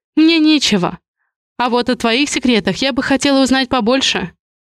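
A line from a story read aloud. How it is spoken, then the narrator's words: Sharp retort. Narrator (Russian): Бросаю резко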